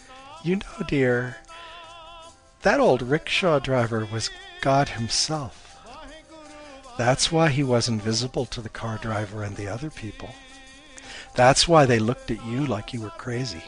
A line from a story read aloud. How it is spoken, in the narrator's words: Her mom chuckled and said